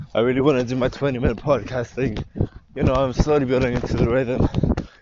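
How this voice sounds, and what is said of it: Unusually deep voice. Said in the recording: “I do have a nice deep voice today. Or at least, like, it sounds like I do.”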